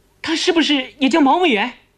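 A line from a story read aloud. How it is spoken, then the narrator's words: Hurried interjection. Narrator (Chinese): 贺仪急忙插进来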